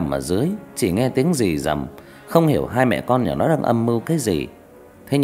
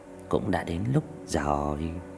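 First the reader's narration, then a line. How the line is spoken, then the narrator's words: Soft reply. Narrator (Vietnamese): Mụ dì ghẻ khẽ đáp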